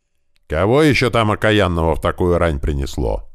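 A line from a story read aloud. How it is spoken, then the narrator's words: Old man's grumble. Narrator (Russian): заворчал на печи дед Кузьма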